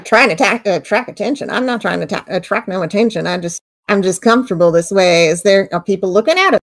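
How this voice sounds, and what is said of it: Appalachian hillbilly accent. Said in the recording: “I'm from Appalachia, and my accent usually gives me away. I sound like a hillbilly”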